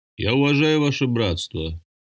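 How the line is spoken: Quiet but resonant. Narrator (Russian): негромким, но звучным голосом промолвил

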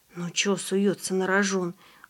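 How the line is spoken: Sighing. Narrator (Russian): вздохнул Андрей

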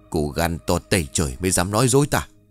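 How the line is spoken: Hissed, old woman trembling. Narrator (Vietnamese): Bà ta giơ bàn tay nhăn nheo gầy gò đã không ngừng run rẩy của mình lên, chỉ thẳng mặt của Thư rồi rít

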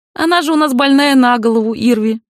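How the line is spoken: Creaky old woman. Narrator (Russian): проскрипела старуха

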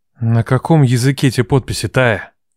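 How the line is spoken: Hoarse. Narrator (Russian): Хрипло уточняет Ваня

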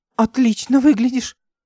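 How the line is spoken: Exclaiming. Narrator (Russian): воскликнула она

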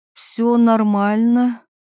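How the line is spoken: Uncertain reply. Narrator (Russian): неуверенно ответила Ирина

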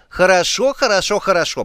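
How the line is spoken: Grumbling. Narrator (Russian): пробурчала

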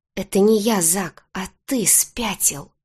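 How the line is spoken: Desperate hiss. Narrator (Russian): зашипела отчаянно

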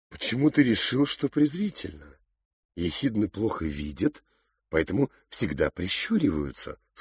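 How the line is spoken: Plain. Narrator (Russian): сказала мама

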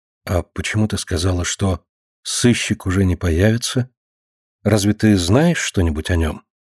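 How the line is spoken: Quiet question. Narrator (Russian): Марина тихо спросила

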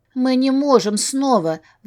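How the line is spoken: Pleading. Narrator (Russian): взмолилась

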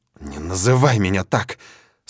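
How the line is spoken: Growled through teeth. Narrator (Russian): Сквозь зубы рычит девушка

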